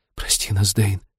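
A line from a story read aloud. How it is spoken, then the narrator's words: Whisper. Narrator (Russian): прошептала Лирин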